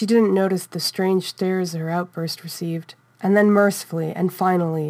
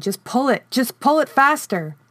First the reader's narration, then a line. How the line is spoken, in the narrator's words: she soon found herself shouting